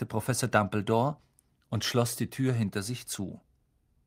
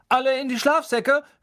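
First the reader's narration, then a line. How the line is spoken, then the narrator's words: Called out. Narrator (German): rief Percy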